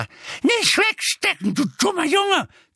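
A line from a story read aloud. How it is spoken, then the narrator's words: Shrieking. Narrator (German): kreischte sie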